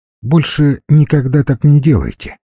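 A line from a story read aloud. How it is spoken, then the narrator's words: Calm. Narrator (Russian): сказала Амалия Петровна вполне спокойно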